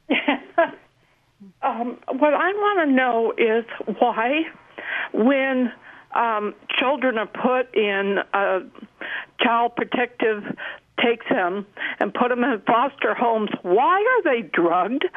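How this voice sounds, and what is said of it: Emotional, shaky voice. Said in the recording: “It's very emotional for me. ... I can hear it in your voice.”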